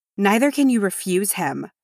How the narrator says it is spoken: Dis said harshly

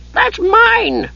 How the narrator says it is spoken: he shrieked

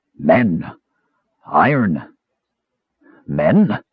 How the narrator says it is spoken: In a raspy bass voice, it said

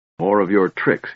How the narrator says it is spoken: he snarled

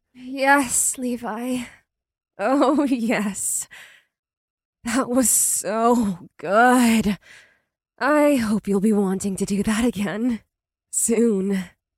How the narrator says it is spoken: she breathed out

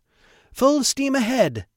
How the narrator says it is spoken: shouted

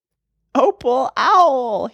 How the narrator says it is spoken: he yelled

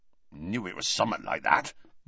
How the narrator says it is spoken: mumbled Hagrid

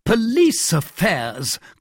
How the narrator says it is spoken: cried the king

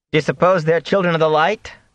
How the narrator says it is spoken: Matt asked in a loud voice

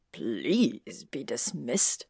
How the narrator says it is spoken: Snape said, sarcasm dripping from his voice like oil paint

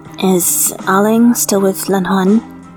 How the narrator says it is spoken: he asked instead

